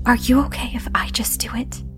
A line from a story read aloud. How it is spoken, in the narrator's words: I just quietly asked